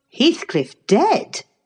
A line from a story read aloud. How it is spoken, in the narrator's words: I exclaimed, astonished